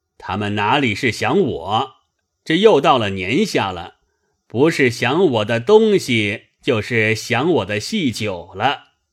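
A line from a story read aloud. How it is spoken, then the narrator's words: Laughing. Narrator (Chinese): 贾珍笑说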